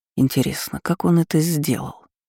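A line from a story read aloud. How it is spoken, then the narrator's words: Thoughtful. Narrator (Russian): задумчиво произнес император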